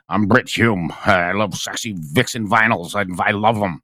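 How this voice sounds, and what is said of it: Impression of Britt Hume. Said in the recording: “to do a Britt Hume imitation. I've been doing those for 4 or 5 years now.”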